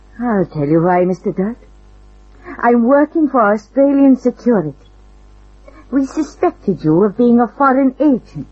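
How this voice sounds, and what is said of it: Slight Russian accent. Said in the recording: “You have a slight foreign accent. ... the derivation of your accent. Russia.”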